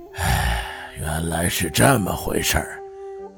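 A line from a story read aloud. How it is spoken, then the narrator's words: Sighing. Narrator (Chinese): 雅叔东国雄叹声道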